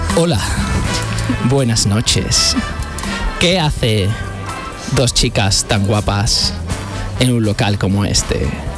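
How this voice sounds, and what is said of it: Put-on sensual, seductive voice. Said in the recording (Spanish): “poner voz de sensual”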